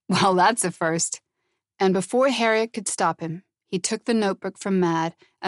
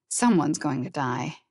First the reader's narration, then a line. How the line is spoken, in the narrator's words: Harriet murmured